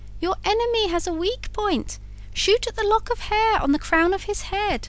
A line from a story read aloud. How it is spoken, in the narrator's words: called out the woodpecker